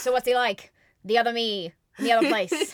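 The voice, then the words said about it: Flat British transatlantic radio voice. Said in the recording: “He talks like a flatter accent ... You just have that, like, radio voice of the time ... British transatlantic accent”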